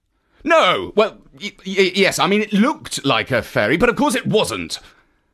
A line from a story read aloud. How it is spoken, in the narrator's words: he replied testily